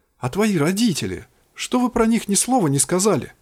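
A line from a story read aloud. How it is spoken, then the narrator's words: Exclaiming. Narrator (Russian): воскликнула Кин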